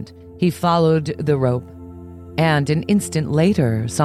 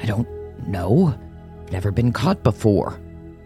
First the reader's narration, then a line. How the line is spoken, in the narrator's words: growled Father Time